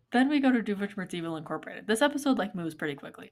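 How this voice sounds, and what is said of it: Calm measured public-radio host delivery. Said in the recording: “I know I'm doing NPR voice right now”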